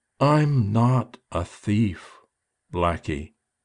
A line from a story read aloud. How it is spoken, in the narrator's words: said so slowly I thought she was going to make every word her last